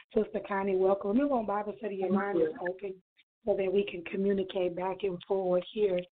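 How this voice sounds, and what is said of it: Low, subdued, quiet speaking voice. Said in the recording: “my voice is pretty low today. I'm trying to save my voice ... My voice is pretty low.”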